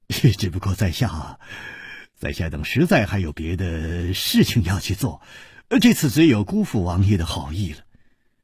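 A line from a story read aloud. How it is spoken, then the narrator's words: Sighing, wry smile. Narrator (Chinese): 楚留香只有叹了一口气，苦笑着说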